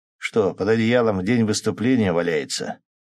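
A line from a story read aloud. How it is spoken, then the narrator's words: Short laugh. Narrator (Russian): хохотнул Шпала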